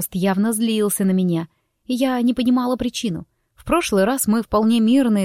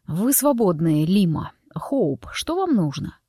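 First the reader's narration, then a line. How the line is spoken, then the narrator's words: Through clenched teeth. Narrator (Russian): процедил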